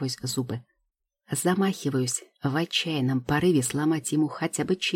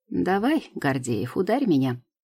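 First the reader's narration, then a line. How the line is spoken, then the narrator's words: Snide teasing. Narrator (Russian): подначивает ехидно, улыбаясь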